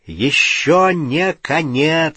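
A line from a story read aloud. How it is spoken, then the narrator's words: Loud shout. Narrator (Russian): сказал Гарри и громко крикнул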